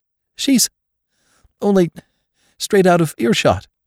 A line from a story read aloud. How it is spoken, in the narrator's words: faltered Jane